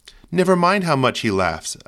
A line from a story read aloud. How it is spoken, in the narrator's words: said